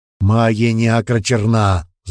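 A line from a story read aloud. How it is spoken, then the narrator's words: Growl. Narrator (Russian): зарычал Велден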